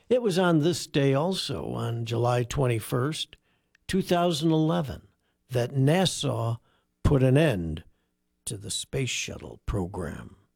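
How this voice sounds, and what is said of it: Midwestern American accent. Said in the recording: “his Midwestern accent coming out”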